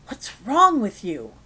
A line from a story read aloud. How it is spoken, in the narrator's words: Frank hisses